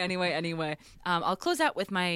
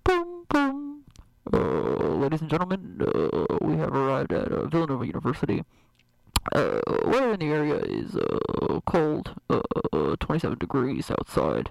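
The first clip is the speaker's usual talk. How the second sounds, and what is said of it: Airline pilot announcement voice. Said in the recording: “my pilot impression”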